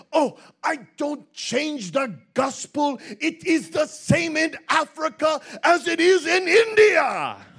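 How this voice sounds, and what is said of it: German-accented impression of a preacher. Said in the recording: “my best Bonnke impersonation ... That German accent.”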